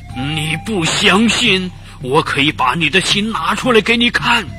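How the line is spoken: Angry shouting. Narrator (Chinese): 荷兰鬼气愤的喊着

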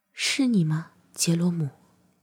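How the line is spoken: Soft low call. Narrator (Chinese): 她 低声唤道

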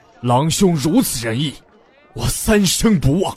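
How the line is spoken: Shouting. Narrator (Chinese): 海龙 喊道

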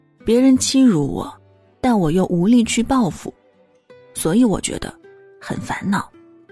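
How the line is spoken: Sighing. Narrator (Chinese): 他 叹了口气说

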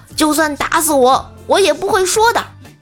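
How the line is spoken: Loud heroic declamation. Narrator (Chinese): 无忌学着电视里烈士的口吻，大声说道

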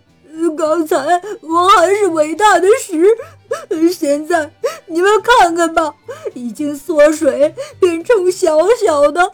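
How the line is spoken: Crying. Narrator (Chinese): 他哭着说

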